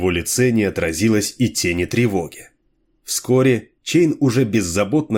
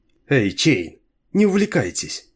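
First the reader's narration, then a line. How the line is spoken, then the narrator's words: Laughing woman. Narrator (Russian): рассмеялась Ланиах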